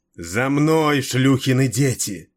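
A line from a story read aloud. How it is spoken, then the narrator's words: Roar. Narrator (Russian): проревела она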